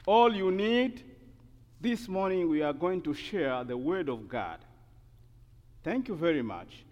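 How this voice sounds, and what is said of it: Non-native English accent. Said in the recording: “Forget about my accent. Forget about my English.”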